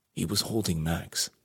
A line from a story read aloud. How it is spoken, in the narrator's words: he said quietly